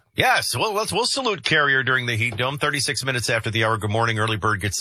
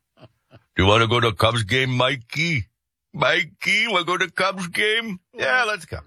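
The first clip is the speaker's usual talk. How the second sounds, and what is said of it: Imitates another person's voice. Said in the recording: “One of my better impersonations is Jim ... based out of Chicago”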